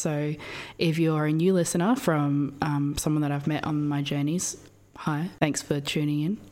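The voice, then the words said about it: Husky voice. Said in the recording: “I'm a little sick. I don't know if you can hear it in my voice. ... You got that huskiness.”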